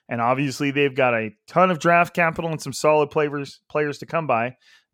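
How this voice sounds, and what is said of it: Nasal, congested voice. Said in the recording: “my voice may be a tad more nasally, Kermit-y, Ray Romano-y than it usually is ... genetic allergies”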